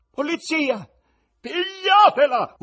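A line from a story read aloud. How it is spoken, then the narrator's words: Terrible bloodcurdling scream. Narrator (Italian): urlò la moglie con voce così tremenda che molti sentirono raggelarsi il cuore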